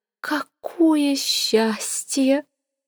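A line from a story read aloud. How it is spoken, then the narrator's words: Breathy. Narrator (Russian): выдохнула Сивилла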